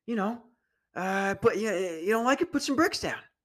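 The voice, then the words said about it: Imitates another person's voice. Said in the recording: “my Joe Biden impression”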